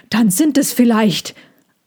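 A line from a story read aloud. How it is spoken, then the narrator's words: Panting. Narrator (German): keuchte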